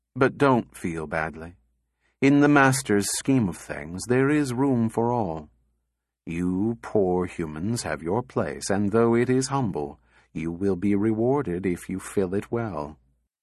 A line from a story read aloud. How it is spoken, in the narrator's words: said in a kindly tone